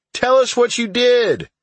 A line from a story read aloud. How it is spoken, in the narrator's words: yet another shouted